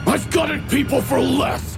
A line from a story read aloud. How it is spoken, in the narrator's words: He snarled